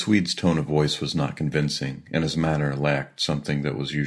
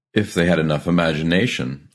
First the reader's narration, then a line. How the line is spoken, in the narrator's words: I laughed loudly